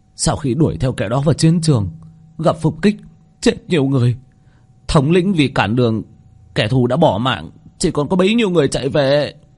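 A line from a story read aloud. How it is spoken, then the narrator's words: Tearful, on the verge of crying. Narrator (Vietnamese): Yêu binh kia mếu máo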